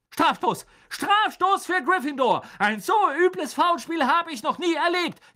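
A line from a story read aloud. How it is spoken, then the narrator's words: Shrieking. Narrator (German): kreischte Madame Hooch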